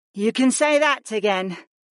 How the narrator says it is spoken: Nia sighed

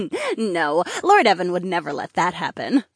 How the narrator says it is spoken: Polina chuckled

